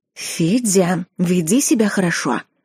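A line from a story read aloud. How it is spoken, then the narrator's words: Mother whispering. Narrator (Russian): шептала одна мамочка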